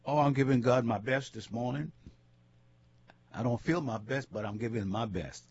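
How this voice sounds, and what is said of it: Congested voice from a cold. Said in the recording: “I've got a cold, can't kick this cold.”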